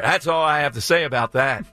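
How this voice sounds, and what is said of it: Forrest Gump impression. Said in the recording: “How about a Forrest Gump? ... That's a great impression there”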